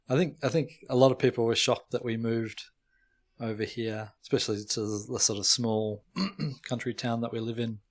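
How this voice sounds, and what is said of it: Australian accent. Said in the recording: “they would notice the Australian accent very quickly”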